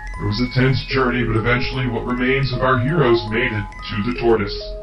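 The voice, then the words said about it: Funny narrator voice. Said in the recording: “got a funny voice.”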